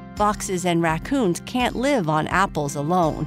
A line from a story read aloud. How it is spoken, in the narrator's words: he said